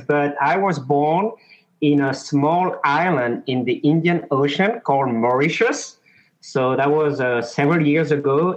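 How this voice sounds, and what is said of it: French accent. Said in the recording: “I do have a French accent”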